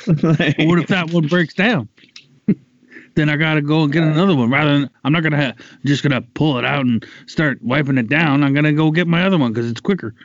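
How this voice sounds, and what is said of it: Imitates another person's voice. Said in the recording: “This is my Alex Jones impression.”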